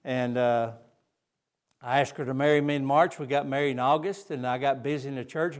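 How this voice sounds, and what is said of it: Southern Georgia accent. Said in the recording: “That's where I get my accent from, I guess. It's from Brunswick, Georgia. It's not Spanish”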